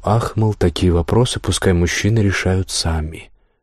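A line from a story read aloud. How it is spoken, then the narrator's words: Tired, smiling reply. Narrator (Russian): улыбнулась устало и ответила ему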